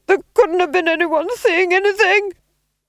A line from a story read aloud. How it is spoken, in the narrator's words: screamed the Duke